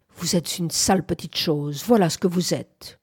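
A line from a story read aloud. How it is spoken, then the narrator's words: Soft, carried across distance. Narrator (French): prononçait-il doucement à travers l'espace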